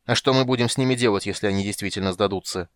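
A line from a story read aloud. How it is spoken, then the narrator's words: Irritated interruption. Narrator (Russian): раздраженно перебил его Тан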